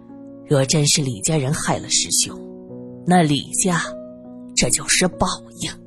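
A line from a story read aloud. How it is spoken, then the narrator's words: Old man sighing. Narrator (Chinese): 老人叹了口气，继续说道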